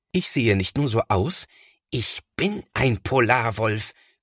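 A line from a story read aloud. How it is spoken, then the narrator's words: Growling. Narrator (German): knurrt Thomas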